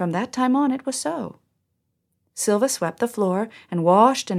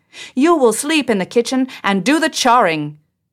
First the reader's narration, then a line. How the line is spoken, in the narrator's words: she called out